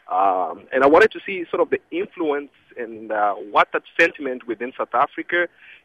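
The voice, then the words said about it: South African Durban accent. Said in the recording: “that's a Durban accent”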